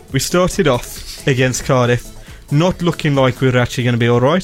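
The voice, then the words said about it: Thick, deep Brummie accent. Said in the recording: “in the thickest, deepest Brummy accent that you can do”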